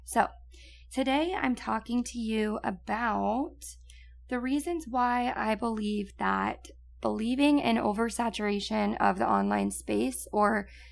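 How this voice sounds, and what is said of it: Raspy, partly lost voice. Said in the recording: “my voice that's a little bit raspy and a little gone ... I'm sure you can tell by my voice”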